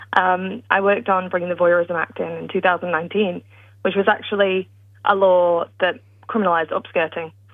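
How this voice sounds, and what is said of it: British accent. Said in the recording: “I'm British, as you can tell by my accent,”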